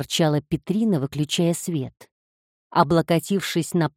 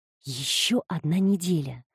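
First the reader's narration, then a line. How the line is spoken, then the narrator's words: Whisper. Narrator (Russian): прошептала она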